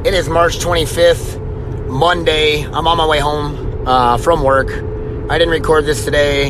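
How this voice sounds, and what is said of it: Hoarse, strained voice. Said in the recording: “My voice is shot. I don't know. I haven't had a voice all day.”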